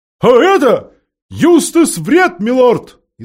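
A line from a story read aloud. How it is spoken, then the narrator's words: Owl shouting loudly. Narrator (Russian): изо всех сил прокричала сова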